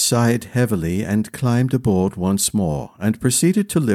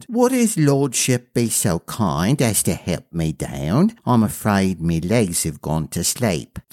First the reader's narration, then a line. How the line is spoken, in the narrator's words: in a dainty voice, she said